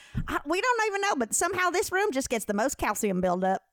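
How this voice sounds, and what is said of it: Imitates a Southern accent. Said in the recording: “it's like such a southern accent.”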